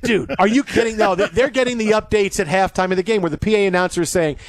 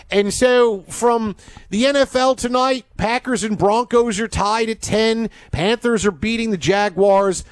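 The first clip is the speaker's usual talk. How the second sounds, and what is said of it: Put-on Pennsylvania accent. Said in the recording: “his Philly accent ... a greater Pennsylvania accent. ... It's Pittsburgh. It's Philadelphia.”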